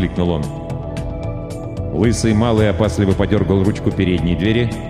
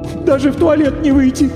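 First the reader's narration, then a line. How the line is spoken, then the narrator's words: Sorrowful sob. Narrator (Russian): Горестно всхлипнула дама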